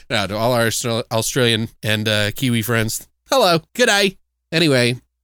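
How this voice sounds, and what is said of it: Poor mixed Australian-Kiwi accent. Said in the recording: “horrible accent. ... Just trying to mix them.”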